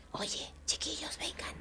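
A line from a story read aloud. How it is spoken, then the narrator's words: Whispering in ears. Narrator (Spanish): susurrando los oídos, dijo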